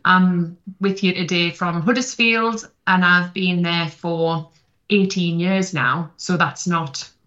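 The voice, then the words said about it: South Shields northeast English accent. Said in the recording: “as you can hear, I am from South Shields originally, and I'm not losing the accent.”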